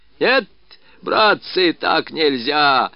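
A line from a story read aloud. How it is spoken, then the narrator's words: Hoarse tavern shouting. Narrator (Russian): выкрикивал он своим хриплым кабацким голосом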